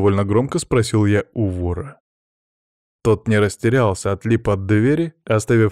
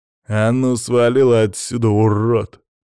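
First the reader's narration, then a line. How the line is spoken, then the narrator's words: Through gritted teeth. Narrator (Russian): процедил он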